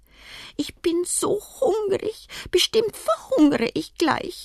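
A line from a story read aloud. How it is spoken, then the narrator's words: Child's whining. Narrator (German): jammert der kleine Kaiser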